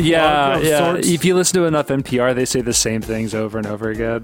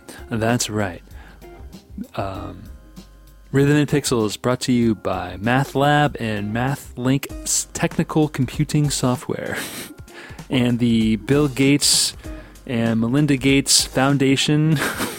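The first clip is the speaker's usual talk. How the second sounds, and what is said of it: Mock NPR radio announcer voice. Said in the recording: “I guess we're doing our best NPR impression”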